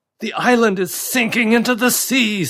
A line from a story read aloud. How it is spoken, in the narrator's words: screamed David over the roaring crashes